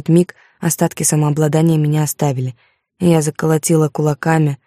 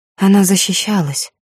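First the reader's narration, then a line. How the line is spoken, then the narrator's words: Weak breathy. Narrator (Russian): слабо выдохнула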